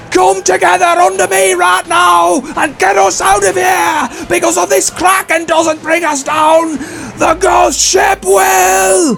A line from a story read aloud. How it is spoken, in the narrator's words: He shouts the top of his lungs